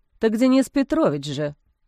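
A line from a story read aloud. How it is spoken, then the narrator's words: Dejected reminder. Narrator (Russian): уныло напомнил мужчина в черном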